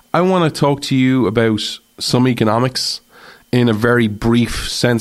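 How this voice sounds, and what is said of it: Speaks with a noticeable accent. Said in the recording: “you come for the accent”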